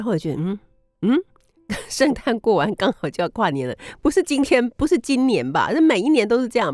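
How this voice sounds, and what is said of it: Usual voice. Nothing is said of it.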